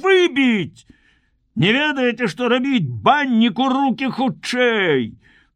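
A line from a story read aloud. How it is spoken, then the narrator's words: Shouting. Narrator (Belarusian): закрычаў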